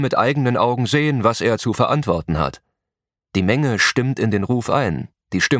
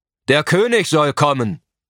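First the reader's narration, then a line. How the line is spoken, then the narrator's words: Someone calls out. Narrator (German): ruft einer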